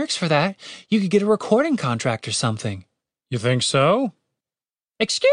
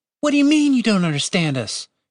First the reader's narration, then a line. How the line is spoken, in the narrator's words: Catherine shouted back at the bird